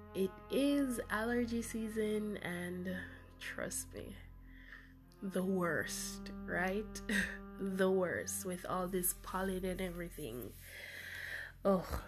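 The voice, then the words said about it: Stuffy, congested voice. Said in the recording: “I sound stuffy.”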